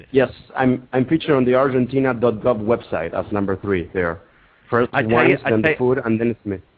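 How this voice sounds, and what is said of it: Romantic-sounding accented voice. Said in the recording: “You have a very romantic voice ... You sound like a perfect blend of Javier Bardem and Jean-Claude Van Damme.”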